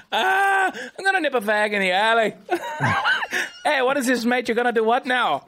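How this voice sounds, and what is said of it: Partial put-on Irish accent. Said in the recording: “Were you using like a quarter Irish accent?”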